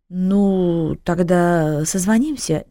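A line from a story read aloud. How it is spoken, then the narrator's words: Uncertain. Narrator (Russian): неуверенно произнес он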